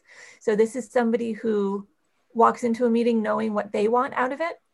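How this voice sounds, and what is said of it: Slightly hoarse voice. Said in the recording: “I'm getting a little hoarse. I think there are some allergens.”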